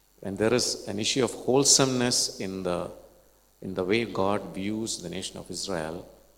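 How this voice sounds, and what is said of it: Malayalam-tinged English accent. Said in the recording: “My accent could be a little different now, a little bit of Malayalam in it.”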